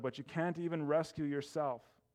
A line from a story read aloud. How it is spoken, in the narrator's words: the people shouted